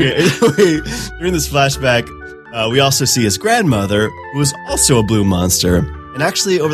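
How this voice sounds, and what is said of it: Usual voice. Nothing is said of it.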